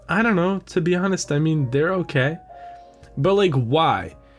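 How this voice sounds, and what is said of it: Put-on girl's voice. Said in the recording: “I'll give myself my voice and the girl a girl voice.”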